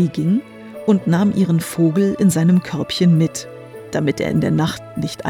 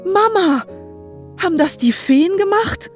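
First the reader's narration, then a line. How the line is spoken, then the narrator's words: Overjoyed call. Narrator (German): rief Tilly, blass vor Glück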